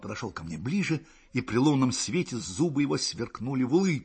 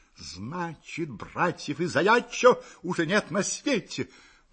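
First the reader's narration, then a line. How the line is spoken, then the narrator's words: Exclaimed. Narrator (Russian): воскликнул он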